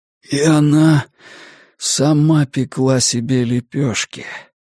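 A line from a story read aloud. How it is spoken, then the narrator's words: Hoarse rasp. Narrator (Russian): прохрипел Стью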